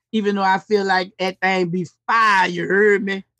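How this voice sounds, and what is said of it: Put-on New Orleans accent. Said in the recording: “when I do my New Orleans accent”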